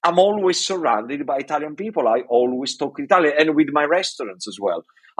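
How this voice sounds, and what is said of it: Italian accent. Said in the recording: “accent as well. I don't lose the accent”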